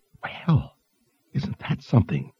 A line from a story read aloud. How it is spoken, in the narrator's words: Teresa whispered